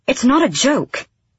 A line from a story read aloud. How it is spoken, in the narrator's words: she snapped